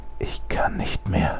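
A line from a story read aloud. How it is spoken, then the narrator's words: Whisper. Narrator (German): flüsterte er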